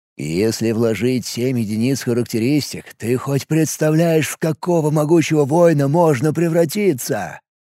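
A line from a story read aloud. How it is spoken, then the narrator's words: Dreamy whisper. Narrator (Russian): Мечтательно прошептал ему в ответ Мареш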